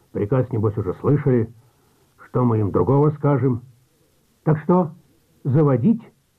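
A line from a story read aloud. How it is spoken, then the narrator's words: Plain. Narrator (Russian): спросил Сиротин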